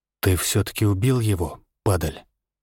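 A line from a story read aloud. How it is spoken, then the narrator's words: Quiet question. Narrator (Russian): Спросил я тихо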